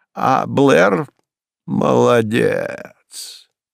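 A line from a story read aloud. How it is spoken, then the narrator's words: Admiring drawl. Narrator (Russian): протянула она с восхищением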